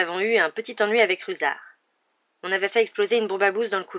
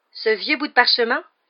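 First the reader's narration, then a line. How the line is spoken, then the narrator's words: Offended exclamation. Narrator (French): s'exclama Fred avec une grimace, comme si Harry venait de l'offenser gravement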